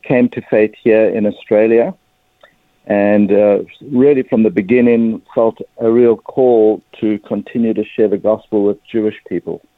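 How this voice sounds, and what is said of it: South African accent. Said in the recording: “as you can probably pick up pretty quickly from my accent, I'm a South African”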